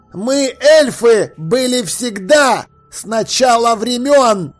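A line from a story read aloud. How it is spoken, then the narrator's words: Booming proclamation. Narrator (Russian): громовым голосом возвестил душистый горошек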